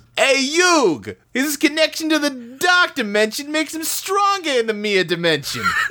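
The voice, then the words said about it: Joey Wheeler impression. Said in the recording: “in a Joey Wheeler voice ... It's good.”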